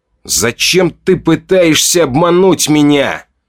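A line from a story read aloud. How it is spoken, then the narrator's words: Barking. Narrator (Russian): рявкнул он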